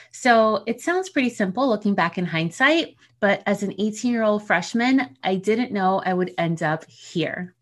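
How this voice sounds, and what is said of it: New Jersey accent. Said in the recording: “the supposed accent people say I have, I'm a Jersey girl.”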